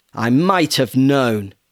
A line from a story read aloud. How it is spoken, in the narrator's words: boomed